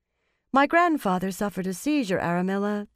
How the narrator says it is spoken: the young woman said calmly

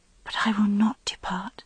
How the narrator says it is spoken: whispered

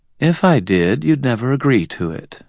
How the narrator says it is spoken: Mab said calmly

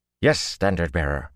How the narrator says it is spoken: snapped out as one

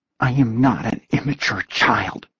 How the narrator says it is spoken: Taylor whispered stubbornly

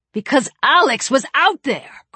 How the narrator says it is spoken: Chris shouted

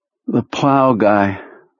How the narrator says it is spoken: Perlmutter said in his tired voice

